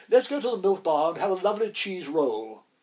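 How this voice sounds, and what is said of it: Imitation of John Gielgud. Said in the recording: “doing my best Gielgud imitation.”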